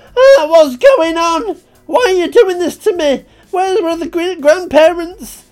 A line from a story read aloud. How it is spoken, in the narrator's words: I just screamed